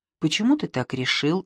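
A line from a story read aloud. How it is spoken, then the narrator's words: Plain. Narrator (Russian): спросил Демиург Шамбамбукли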